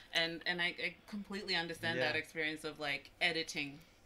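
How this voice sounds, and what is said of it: Mixed American-Australian accent. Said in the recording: “my accent sounds a little bit American, sounds a little bit Australian”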